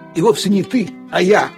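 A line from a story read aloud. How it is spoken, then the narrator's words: Grumbling. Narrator (Russian): проворчал Лассе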